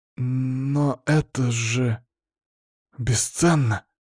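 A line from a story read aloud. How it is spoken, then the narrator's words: Stammering. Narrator (Russian): запинаясь, произнес Лызлов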